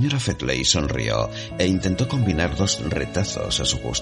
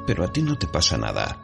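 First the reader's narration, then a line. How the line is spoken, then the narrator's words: Plain. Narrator (Spanish): dijo su anfitriona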